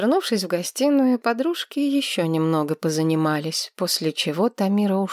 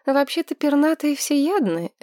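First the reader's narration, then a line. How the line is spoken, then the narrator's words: Uncertain drawl. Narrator (Russian): неуверенно протянула Маргарет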